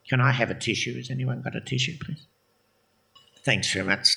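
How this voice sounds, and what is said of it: Emotional, choked-up voice. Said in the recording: “I'm a bit emotional.”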